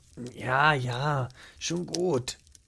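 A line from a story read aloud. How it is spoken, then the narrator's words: Murmured. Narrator (German): murmelte er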